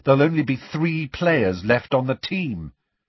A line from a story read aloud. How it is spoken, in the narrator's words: said Harry testily